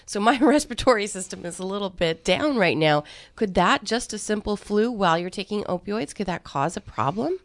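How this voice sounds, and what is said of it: Sick-sounding voice. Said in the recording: “as you can hear in my voice, I am also going through this too”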